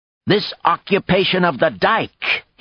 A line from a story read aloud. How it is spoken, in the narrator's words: he exclaimed angrily